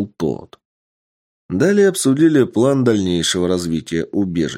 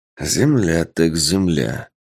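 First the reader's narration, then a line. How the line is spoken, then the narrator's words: Man muttering. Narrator (Russian): пробормотал мужчина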